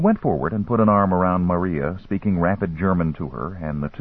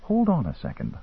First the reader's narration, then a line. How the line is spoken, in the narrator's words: I whispered